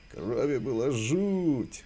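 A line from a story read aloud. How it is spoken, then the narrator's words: Loud laughter. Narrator (Russian): Джек захохотал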